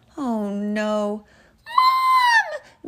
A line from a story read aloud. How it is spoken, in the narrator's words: Mia squealed